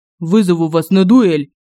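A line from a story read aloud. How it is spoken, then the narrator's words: Barked. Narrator (Russian): Рявкнул Семён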